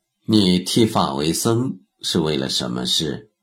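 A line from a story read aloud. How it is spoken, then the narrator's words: Calm, composed question. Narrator (Chinese): 他心下暗叹，脸上却不动声色，接着问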